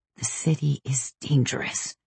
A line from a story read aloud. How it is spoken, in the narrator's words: she whispered